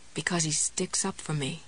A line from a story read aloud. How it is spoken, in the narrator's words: she murmured